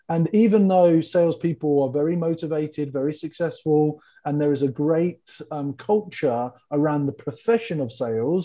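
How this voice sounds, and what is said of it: English accent. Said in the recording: “I'm an English tall gentleman from the UK, and the people love my accent”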